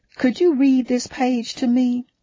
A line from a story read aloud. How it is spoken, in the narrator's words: I asked in my sweetest Southern Belle voice